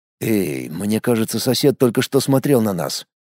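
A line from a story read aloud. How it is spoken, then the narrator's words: Muttered. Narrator (Russian): пробормотал я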